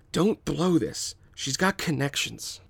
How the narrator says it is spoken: Jan whispers to his brother

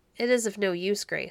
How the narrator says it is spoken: said her father

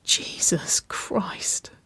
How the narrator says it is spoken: Waverley chuckled softly

